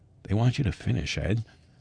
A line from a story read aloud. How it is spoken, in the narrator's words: Bob Deal quietly saying